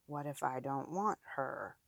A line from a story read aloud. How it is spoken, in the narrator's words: murmurs